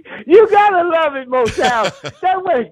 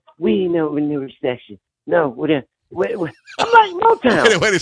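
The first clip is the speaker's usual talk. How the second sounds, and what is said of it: Imitates another person's voice. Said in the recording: “Is that your Nancy Pelosi impersonation?”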